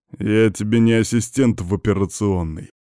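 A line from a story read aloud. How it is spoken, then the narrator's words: Growling. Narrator (Russian): прорычал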